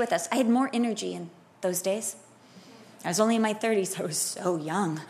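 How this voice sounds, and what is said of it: Usual voice. Nothing is said of it.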